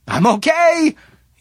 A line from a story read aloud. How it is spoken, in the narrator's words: he shouted